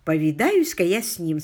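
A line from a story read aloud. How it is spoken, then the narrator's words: Plain. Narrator (Russian): сказал Алик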